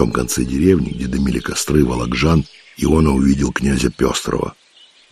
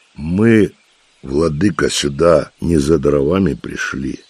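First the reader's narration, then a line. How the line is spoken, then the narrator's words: Gloomy interruption. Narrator (Russian): мрачно перебил он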